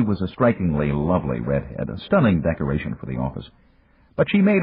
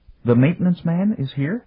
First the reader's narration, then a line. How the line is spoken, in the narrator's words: announced timidly